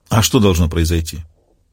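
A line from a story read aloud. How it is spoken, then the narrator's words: Sighing. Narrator (Russian): Она вздохнула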